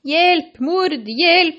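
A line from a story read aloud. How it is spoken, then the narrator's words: Screamed in panic. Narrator (Norwegian): skrek fru Gloop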